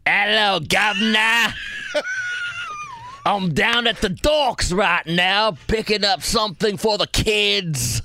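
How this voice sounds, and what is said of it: Put-on Cockney accent, fairly good. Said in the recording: “That's ... Cockney accent... It's not bad at all... That's actually not bad.”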